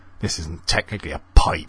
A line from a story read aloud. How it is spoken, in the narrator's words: they grumbled